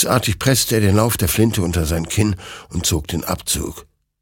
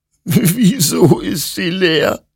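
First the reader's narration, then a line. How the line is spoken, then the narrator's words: Sobbing. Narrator (German): schluchzte Hektor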